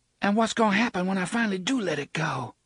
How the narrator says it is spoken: wondered desperately

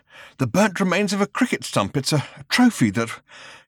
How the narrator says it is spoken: was panting

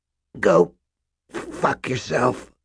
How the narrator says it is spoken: said in a cracked, thick voice

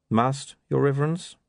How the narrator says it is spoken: he said calmly

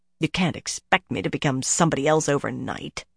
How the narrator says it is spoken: the woman muttered grumpily

